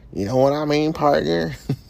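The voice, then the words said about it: Put-on Texan cowboy accent. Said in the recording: “I could work on my accent all late night, day and night. ... I've definitely done a better one than that.”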